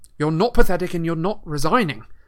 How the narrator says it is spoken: said Harry fiercely

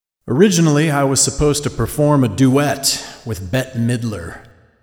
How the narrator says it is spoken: my father boomed into the microphone

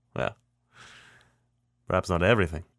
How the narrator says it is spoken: he chuckles

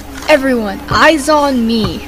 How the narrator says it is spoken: She shouts

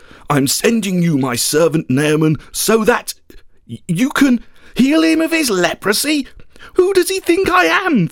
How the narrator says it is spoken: the king cried

